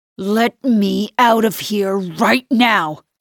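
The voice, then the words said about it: Low growling voice. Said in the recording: “His voice is a low growl now.”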